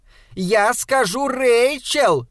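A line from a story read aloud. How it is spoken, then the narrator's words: Shouting after someone. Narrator (Russian): крикнула она вдогонку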